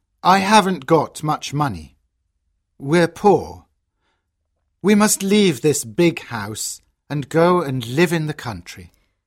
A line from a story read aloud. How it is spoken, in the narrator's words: he says sadly